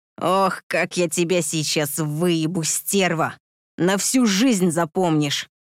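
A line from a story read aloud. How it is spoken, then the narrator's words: Eager growl. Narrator (Russian): В предвкушении рыкнул он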